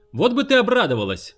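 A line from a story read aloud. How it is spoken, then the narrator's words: Shouted from another room. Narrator (Russian): прокричал из ванной Гарп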